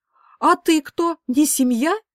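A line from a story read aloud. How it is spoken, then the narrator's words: Heated exclamation, mother. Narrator (Russian): горячо воскликнула мама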